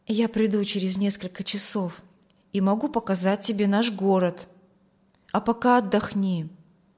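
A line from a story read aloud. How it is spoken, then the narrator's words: Quiet. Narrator (Russian): тихо сказал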